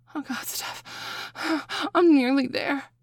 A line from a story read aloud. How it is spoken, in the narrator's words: I gasp